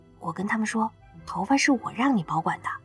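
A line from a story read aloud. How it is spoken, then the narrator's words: Hurried whisper. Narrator (Chinese): 刘亚楠赶紧小声的对野兽说道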